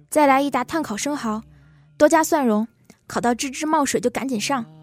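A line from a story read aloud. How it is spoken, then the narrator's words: Shouting, banging table. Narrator (Chinese): 猪头拍着桌子喊服务员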